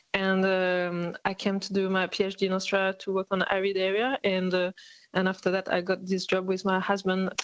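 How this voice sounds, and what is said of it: French accent in English. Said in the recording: “my accent is not very Aussie, so I come from France originally”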